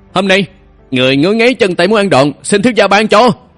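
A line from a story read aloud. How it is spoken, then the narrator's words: Joyful loud shout. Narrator (Vietnamese): Thường Uy mừng trợ hét lớn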